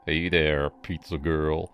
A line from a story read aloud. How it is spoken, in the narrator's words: he drawled, his voice thick like he'd been hitting the bottle